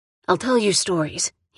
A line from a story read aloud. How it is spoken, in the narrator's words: he said